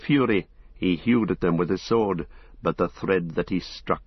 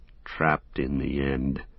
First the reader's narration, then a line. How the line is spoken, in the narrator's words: said Sam bitterly, his anger rising again above weariness and despair